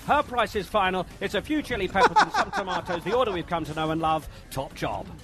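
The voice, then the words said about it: British soccer commentator accent. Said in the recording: “That's the really accent's good. Perfect. ... It's just like soccer ... when you hear a Brit do”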